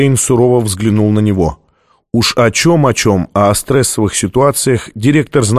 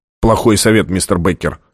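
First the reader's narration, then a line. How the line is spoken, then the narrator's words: Snapping retort. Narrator (Russian): огрызнулся Джабба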